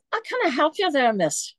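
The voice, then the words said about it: Imperfect put-on Irish-sounding accent. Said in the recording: “He looked like a leprechaun. ... my accent's a little bit off.”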